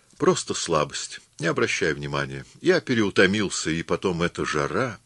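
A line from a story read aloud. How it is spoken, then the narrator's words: Calm. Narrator (Russian): вполне спокойно сказал мне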